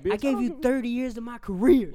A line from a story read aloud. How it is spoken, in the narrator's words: This nigga bitch yelled like